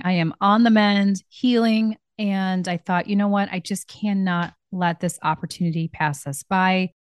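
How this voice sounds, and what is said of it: Slightly hoarse voice. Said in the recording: “my voice is a little hoarse this morning”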